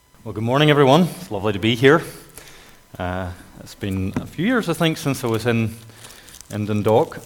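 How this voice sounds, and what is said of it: Northern Irish North Antrim accent. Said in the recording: “You can tell my accent. It's kind of North Antrim”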